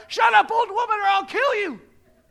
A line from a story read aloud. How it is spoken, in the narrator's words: She shouts